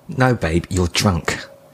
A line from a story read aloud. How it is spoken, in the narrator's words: she said